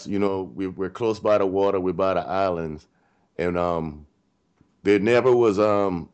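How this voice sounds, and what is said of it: Distinct Gullah Geechee accent. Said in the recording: “I hear a very distinct accent ... the Gullah people ... the Geechee language.”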